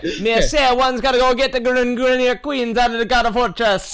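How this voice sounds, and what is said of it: Put-on accent. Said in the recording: “You've got an accent.”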